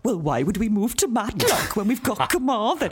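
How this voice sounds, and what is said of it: High-pitched indignant Welsh voice. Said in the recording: “he's got quite a high voice these days ... You're doing indignant Welsh.”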